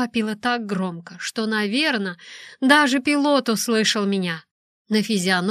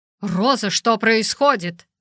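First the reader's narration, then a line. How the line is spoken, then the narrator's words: Exclamation. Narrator (Russian): воскликнула она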